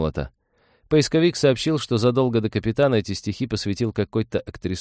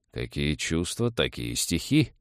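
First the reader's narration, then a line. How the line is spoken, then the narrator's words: Theatrical sigh. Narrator (Russian): Рам картинно вздохнул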